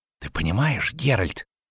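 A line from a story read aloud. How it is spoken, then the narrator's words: Whisper. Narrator (Russian): шепнул Лютик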